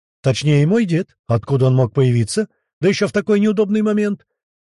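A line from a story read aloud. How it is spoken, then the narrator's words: Irritated exclamation. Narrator (Russian): воскликнул раздраженный император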